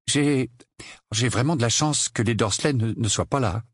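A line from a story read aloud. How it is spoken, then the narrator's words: Stammering. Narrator (French): bredouilla Harry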